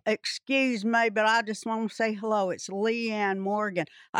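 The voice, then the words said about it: Tennessee-accented impression of Leanne Morgan. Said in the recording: “I was going to guess Larry the Cable Guy from that imitation. Could have been 50-50. ... She's from Tennessee. I love their accent.”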